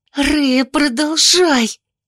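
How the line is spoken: Hissed reply. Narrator (Russian): зашипела Оливия в ответ

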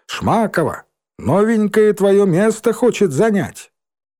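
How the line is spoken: Loud shout. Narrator (Russian): громко крикнула

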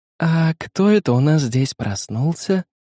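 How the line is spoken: Gentle question. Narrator (Russian): ласково спросила Лина

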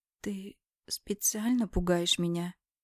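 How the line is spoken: Hoarse question. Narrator (Russian): спрашиваю севшим голосом

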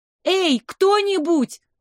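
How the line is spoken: Louder shouting. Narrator (Russian): Я закричала уже громче

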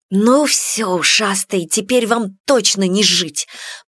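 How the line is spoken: Hissed. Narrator (Russian): прошипела хозяйка сгинувшего роя

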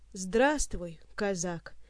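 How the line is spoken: Quiet, forced smile. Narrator (Russian): негромко произнес разоблаченный гость, пытаясь изобразить улыбку

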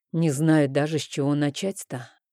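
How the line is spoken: Muffled, hollow voice. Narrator (Russian): глухо произнес я

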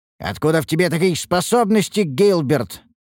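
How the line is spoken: Barked. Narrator (Russian): рявкнул я

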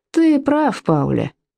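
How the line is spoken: Mumbled. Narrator (Russian): промямлил он

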